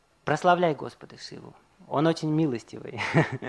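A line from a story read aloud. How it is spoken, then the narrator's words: Whisper in the ear. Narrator (Russian): его военачальник, он шепнул ему на ухо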